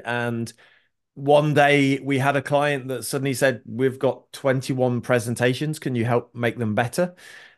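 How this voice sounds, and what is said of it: British accent. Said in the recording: “as you can hear from the accent, originally from the UK”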